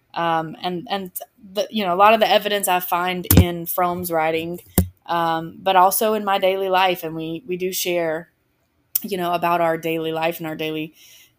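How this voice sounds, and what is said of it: Southern American accent. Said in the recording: “what's that accent? ... I am from the South. I grew up just west of Atlanta.”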